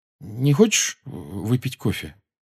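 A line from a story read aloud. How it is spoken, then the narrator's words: Uncertain question. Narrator (Russian): Джоу неуверенно спросила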